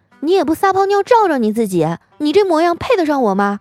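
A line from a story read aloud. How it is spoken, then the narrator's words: Harsh, cruel. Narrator (Chinese): 他狠心的对我说道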